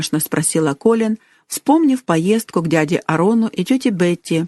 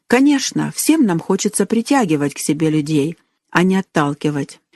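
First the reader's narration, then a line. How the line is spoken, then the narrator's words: Soft gentle speech. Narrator (Russian): мягко сказала тетя Ханна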